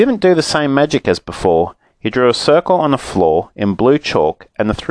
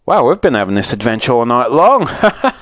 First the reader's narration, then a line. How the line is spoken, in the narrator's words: said Moonface with a laugh